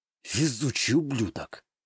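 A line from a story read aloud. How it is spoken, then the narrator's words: Soundless mouthed whisper. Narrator (Russian): я одними губами прошептал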